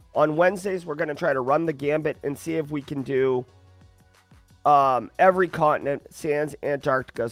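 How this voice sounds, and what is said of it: Rough, unwell-sounding voice. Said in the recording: “sorry about my voice ... I sound like hell”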